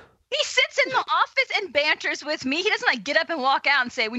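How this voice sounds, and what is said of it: Usual voice. Nothing is said of it.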